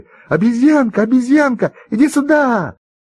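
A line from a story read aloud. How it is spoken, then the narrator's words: Children shouting together. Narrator (Russian): все ребята закричали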